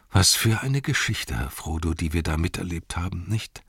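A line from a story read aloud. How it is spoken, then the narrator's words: Said with a sigh. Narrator (German): sagte er und seufzte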